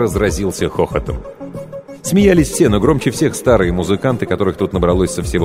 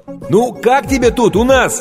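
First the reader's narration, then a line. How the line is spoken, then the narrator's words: Shouting into ear over din. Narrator (Russian): крикнул Стэн ей прямо в ухо, поскольку уровень грохота в зале неуклонно возрастал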